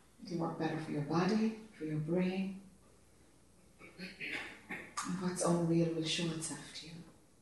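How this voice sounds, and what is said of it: Irish accent. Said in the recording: “this Irish accent”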